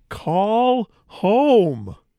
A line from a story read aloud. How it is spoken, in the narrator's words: everybody just ends up shouting